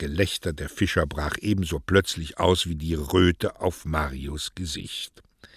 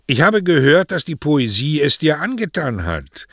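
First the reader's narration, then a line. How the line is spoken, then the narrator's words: Loud enough for all. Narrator (German): sagte er laut genug, dass alle es hören konnten, zu Mario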